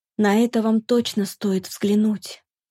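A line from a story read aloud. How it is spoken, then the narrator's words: Whispered. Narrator (Russian): проговорила почему-то шепотом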